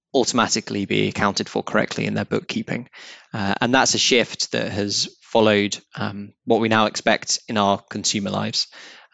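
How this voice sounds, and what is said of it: British accent. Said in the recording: “from the accent, I'm guessing you guys are UK-based and have a UK origin”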